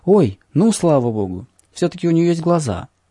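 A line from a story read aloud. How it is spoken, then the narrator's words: Joyful exclamation. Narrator (Russian): она радостно воскликнула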